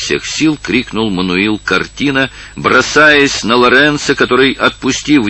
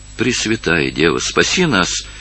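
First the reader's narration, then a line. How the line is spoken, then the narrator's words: Desperate exclamation. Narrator (Russian): воскликнула Долорес в отчаянии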